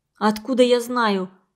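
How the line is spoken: Angry. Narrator (Russian): сердито ответила девушка

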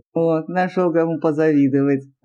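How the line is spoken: Laughing officer. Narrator (Russian): рассмеялся один из офицеров

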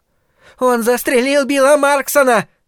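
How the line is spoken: High shrill male scream. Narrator (Russian): завопил мужчина высоким пронзительным голосом

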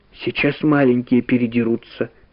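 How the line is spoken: Quiet. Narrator (Russian): тихо сказала Валя

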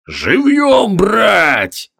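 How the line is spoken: Barked command. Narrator (Russian): гаркнул серый с капральским воротником

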